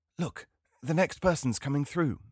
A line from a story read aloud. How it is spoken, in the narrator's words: she whispered excitedly